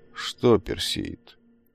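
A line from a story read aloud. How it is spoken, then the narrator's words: Gruff grumble. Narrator (Russian): буркнул приземистый широкоплечий ремесленник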